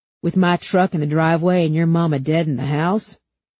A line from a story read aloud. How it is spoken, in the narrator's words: Zack huffed a snort